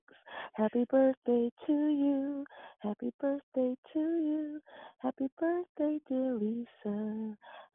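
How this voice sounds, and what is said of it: Hoarse singing voice. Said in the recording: “my voice is sounding a little weird today ... Give you a little hoarseness”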